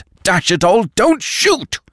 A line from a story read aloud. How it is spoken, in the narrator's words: roared Lupin